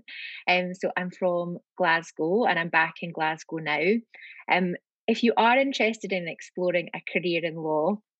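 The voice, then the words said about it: Scottish accent. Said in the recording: “You can probably tell that it's a Scottish accent.”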